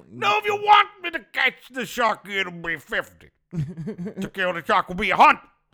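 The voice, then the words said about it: Bill Cosby doing Quint's shark speech. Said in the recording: “Bill Cosby doing the fucking the Jaws hunting the shark speech”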